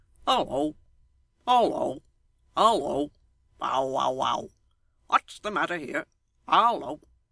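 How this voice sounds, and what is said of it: Hoarse croaking raven voice. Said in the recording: “cried a hoarse voice in his ear... a large raven”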